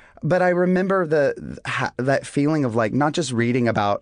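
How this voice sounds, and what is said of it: Usual voice. Nothing is said of it.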